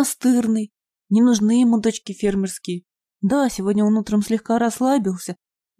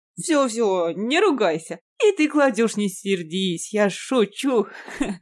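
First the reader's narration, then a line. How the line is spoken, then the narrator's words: Laughing. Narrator (Russian): рассмеялся Иван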